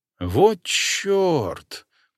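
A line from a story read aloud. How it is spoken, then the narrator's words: Hissed through teeth, soft whistle. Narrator (Russian): процедил Корнеев, тихо присвистнув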